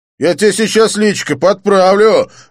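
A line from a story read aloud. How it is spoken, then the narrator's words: Aggressive bark. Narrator (Russian): рявкнул блондин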